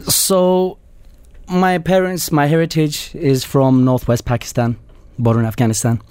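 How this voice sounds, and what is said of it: Bolton English accent. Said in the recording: “you're from my part of the world in Bolton in the UK ... you've got the accent to prove it. ... it's perfect accent.”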